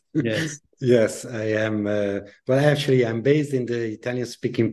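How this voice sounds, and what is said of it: Italian-accented English. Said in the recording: “you're based in Italy, aren't you? I am, as you can hear from my accent.”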